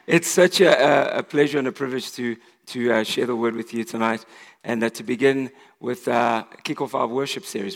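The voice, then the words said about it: Voice affected by a cold. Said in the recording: “I apologize for my voice. I'm recovering from some man flu.”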